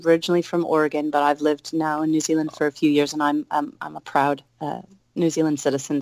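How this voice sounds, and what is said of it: Mixed American and New Zealand accent. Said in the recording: “there's a bit of a strange accent. I get asked that a lot. Why do you speak like that?”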